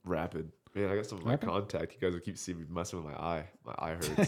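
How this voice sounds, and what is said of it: Voice sounds bad, unwell. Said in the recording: “my voice is really bad ... I'm feeling a little under the weather”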